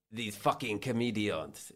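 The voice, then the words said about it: Attempted French accent. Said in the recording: “Do the accent ... Is that French? ... it's clearly you're going for French, which is an achievement”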